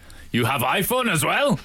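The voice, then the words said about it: Put-on Russian accent, jealous husband. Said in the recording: “That's my Russian accent of jealous husbands”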